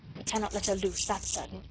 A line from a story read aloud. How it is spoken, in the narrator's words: he muttered to himself